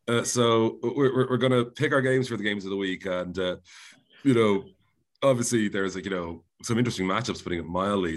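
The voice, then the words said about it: Strained voice, not fully recovered. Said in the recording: “there's a little bit of tension in my voice ... it's mostly still this comical flu recovery ... just my voice is not remotely returned”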